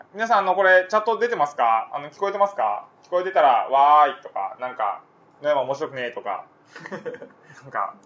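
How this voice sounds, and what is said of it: Kansai dialect accent. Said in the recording (Japanese): “関西弁でしょ、僕完全にこれ。... 関西弁です。”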